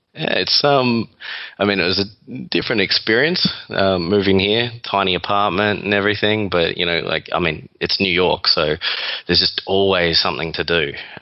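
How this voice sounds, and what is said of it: Australian accent. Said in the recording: “This isn't your typical Manhattan accent. This is an Australian accent.”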